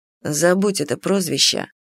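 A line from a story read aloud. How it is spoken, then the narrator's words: Cold dragon reply. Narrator (Russian): холодно ответил дракон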